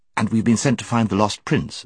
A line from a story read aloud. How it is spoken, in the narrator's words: said Jill, who had been anxiously waiting to get into the conversation